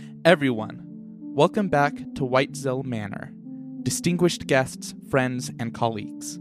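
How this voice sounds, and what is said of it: Usual voice. Nothing is said of it.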